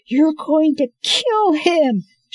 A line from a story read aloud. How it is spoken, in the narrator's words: she shrieked